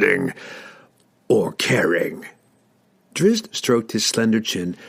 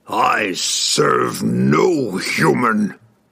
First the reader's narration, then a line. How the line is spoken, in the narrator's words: Ertu roared